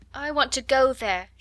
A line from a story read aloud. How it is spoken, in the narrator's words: she cried